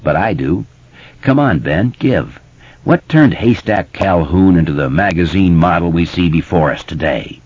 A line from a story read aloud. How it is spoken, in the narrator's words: Richie snorted a little